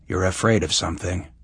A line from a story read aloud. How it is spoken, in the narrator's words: he said flatly